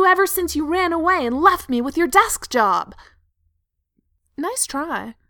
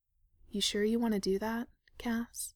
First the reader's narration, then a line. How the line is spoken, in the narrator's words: Sam asked quietly